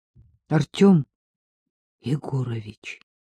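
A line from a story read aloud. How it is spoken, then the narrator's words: Unusually quiet. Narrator (Russian): произнес Пашка необычайно тихим голосом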